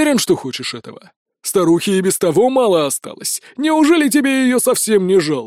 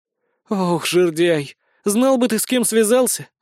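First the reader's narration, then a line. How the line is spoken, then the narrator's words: Sighing. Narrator (Russian): вздохнула Безос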